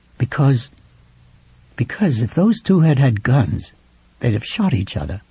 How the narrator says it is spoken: he muttered

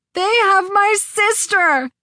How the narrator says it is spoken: the gas man howled

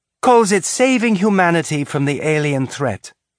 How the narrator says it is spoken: Sam said sweetly

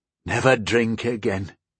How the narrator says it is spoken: breathed

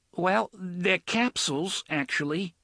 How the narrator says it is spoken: the aide said nervously

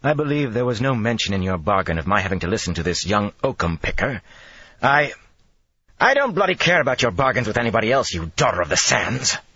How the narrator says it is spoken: Matt snapped

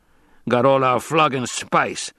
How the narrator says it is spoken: growled another

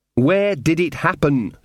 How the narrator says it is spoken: said Magrat, trying to speak slowly and distinctly

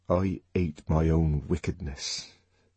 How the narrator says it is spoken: he added in a lower tone

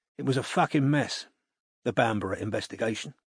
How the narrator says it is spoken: said quietly

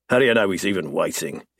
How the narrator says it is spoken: He snaps

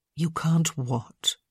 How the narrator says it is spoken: Violet asked gently

